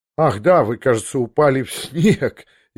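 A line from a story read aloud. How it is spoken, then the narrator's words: Laughing. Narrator (Russian): он засмеялся мне в глаза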